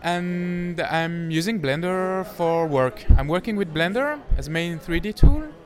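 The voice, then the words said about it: Swiss French accent in English. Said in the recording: “from Switzerland, from the French-speaking part. You might notice it from my accent.”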